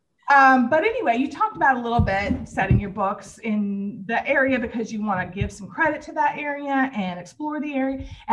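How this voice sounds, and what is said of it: Southern Kentucky accent. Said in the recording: “my Southern Kentucky accent”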